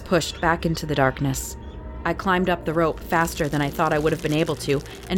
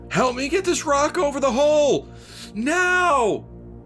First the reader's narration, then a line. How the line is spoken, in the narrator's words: Another guy yelled